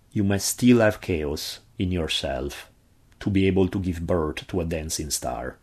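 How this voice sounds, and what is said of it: Heavy Italian accent. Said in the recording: “my heavy Italian accent”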